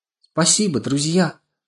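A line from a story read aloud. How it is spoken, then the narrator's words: Small man's exclamation. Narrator (Russian): воскликнул маленький человечек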